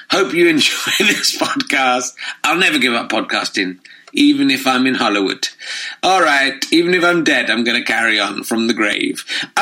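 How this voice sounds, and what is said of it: Slightly croaky voice. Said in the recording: “my voice is slightly croaky”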